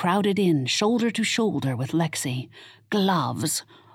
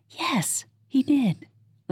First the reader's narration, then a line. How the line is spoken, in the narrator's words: Lexi whispered